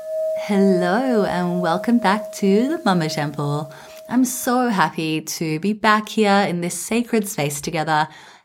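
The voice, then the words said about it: Hoarse, weakened voice from illness. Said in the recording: “As you can probably hear from my voice, I am still recovering from getting sick ... I lost my voice”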